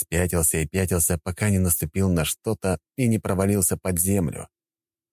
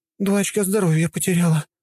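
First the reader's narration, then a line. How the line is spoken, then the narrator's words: Sighing young woman. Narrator (Russian): вздохнула единственная девушка в отряде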